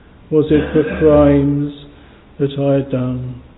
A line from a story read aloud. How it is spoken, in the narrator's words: He groaned